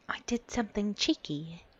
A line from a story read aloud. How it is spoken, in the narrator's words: she whispered